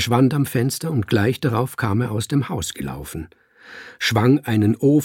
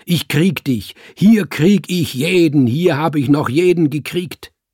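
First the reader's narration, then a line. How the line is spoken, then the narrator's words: Thundering voice. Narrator (German): donnerte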